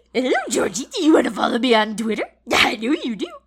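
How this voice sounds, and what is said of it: Pennywise impression. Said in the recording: “Your Pennywise got a little nerdy at the end ... On the ... impressions meter, I think Pennywise is pretty high up there”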